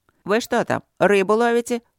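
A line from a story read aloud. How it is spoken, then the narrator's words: Icy tone. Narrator (Russian): ледяным тоном осведомился Трот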